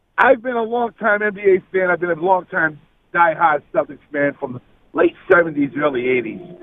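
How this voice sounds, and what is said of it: New England accent. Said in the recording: “I can tell that New England accent”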